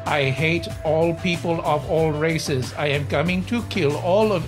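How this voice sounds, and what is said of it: Robot voice with Spanish accent. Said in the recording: “Your robot voice had an accent. ... slipping dangerously into Spanish robot at the end there”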